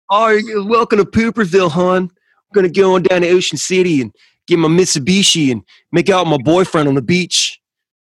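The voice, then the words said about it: Put-on Baltimore accent. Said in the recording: “Is that Baltimore? ... That's your zone. ... that accent”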